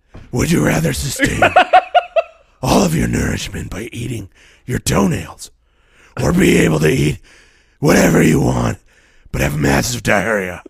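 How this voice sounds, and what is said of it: Batman-style character voice. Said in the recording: “Doing my Batman voice.”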